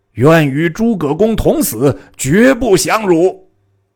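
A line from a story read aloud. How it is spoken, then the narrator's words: Crowd shouting together. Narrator (Chinese): 众皆大叫曰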